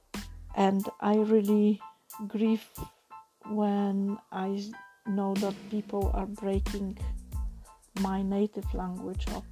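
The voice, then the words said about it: Polish accent. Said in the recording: “as you probably gather from my accent, I am not English born, I am born in Poland”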